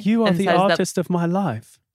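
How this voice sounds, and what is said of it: Put-on British accent. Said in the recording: “your British accent ... You need to go back across the pond. You need to do a little bit more work.”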